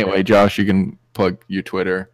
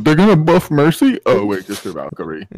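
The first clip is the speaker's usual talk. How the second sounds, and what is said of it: Imitates another person's voice. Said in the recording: “That was a great SQC impression.”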